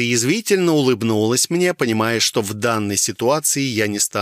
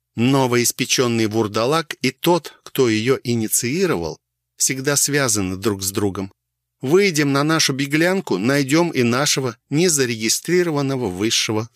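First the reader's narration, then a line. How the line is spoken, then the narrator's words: Calm. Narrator (Russian): спокойно ответила Алиса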